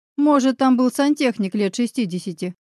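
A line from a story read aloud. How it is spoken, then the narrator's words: Wry, distracting chuckle. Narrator (Russian): хмыкнул я, пытаясь отвлечь друга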